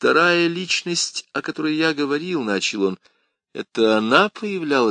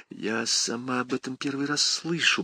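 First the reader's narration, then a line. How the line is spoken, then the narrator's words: Whisper. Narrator (Russian): прошептала она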